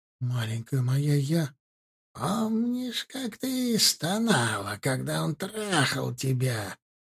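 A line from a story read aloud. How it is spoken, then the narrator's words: Gurgling choking old woman. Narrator (Russian): Булькающим голосом, захлебывающимся в смраде своего дыхания, спросила старуха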